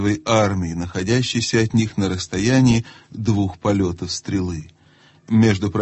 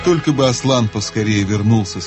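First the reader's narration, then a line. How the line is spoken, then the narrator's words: Plain. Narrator (Russian): сказал Трумпкин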